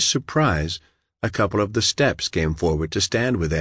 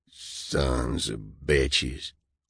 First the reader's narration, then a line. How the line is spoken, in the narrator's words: one of them growled